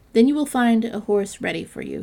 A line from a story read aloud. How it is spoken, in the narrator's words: he said